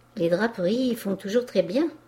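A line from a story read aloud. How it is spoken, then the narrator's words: Plain. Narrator (French): répondit le peintre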